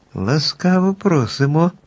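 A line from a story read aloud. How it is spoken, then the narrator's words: Joyful group exclamation. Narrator (Ukrainian): радісно вигукнули подорожні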